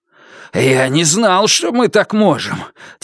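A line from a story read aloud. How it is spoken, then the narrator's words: Heavy exhale. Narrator (Russian): тяжело выдохнул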